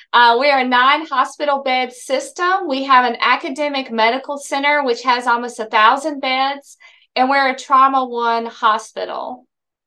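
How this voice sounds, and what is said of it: Southern US accent. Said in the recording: “This Southern accent is real.”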